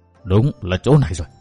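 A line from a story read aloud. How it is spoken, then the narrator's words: Quiet speech. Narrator (Vietnamese): vị đạo sĩ khẽ gật đầu nói nhỏ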